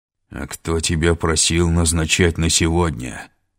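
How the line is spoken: Growl. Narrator (Russian): прорычал он

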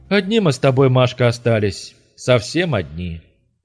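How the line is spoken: Sad statement. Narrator (Russian): Олег грустно констатировал

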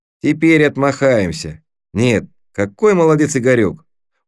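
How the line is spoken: Very affectionate. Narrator (Russian): Он очень ласково сказал это

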